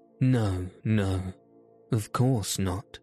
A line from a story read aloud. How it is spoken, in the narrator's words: she said